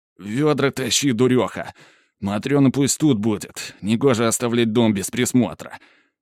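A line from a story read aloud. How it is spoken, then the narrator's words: Through gritted teeth, cursing. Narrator (Russian): Сквозь зубы, матерясь из-за отбитого в потьмах пальца ноги, распоряжаюсь я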